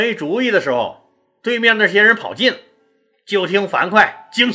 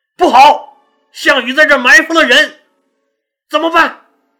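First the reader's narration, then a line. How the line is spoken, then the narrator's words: Alarmed shout. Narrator (Chinese): 刘邦大惊，大喊一声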